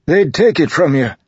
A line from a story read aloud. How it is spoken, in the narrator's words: the man said urgently